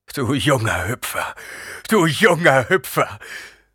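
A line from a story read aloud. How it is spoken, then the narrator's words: Sobbing. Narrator (German): schluchzte Gurney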